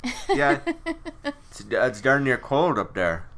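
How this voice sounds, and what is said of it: Exaggerated Minnesota accent. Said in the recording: “from Duluth. And when you're from Duluth, you kind of sound like this a little bit... Minnesota”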